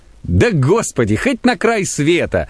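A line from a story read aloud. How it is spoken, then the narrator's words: Laughing. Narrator (Russian): засмеялся дьякон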